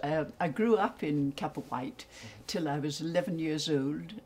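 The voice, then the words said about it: English-influenced accent. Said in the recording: “I went to boarding school in England, place called Lowestoft in Suffolk, which accounts for my accent”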